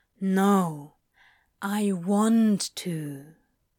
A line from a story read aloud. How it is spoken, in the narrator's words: said slowly, sincerely